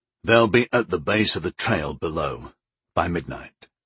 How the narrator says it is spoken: Arborn reported grimly

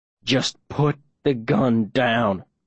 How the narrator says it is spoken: I growl

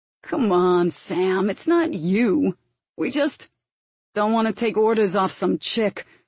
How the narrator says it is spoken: finished Harvey in an arrogant tone

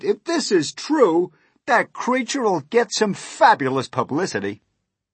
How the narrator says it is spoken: no less than 52 policemen cried

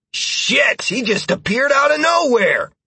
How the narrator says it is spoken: Halcyon added with a yelp

